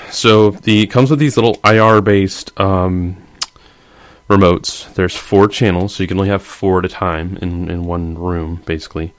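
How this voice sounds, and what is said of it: Congested, stuffy voice. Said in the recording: “excuse my voice. I got some congestion. Still all recovering from holiday Christmas sicknesses.”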